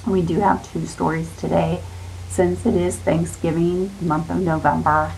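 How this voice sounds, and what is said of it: Scratchy voice that cuts in and out. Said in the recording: “apologize for my voice. I still have a cough. And if it's a little scratchy or goes in and out”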